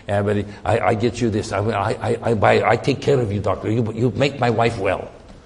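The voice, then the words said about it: Imitated foreign accent, broken English. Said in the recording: “He speaks with a, you know, foreign accent.”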